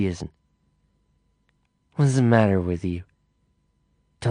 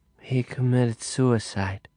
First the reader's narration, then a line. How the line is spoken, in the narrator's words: she said softly